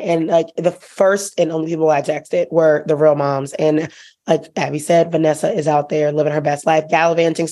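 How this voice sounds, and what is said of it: Very hoarse voice. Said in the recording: “my very hoarse voice. You can tell I've been screaming about this entire thing all weekend.”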